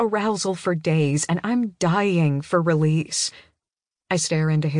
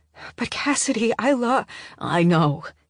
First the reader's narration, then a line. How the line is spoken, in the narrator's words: he says, his voice an urgent and strangled whisper as he cuts me off